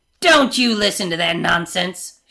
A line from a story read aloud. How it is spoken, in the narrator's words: she snaps